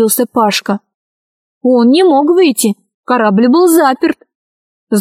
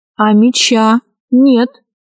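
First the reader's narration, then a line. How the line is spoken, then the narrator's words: Calm, indifferent. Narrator (Russian): сказал спокойно, словно увидел муху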